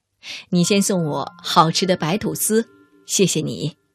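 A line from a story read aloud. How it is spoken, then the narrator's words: Laughing. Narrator (Chinese): 对方笑道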